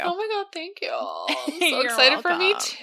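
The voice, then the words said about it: Heavy vocal fry. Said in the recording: “that vocal fry.”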